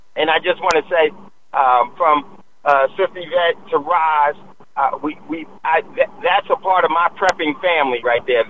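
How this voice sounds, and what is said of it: Hoarse, fading voice. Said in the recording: “Losing my voice,”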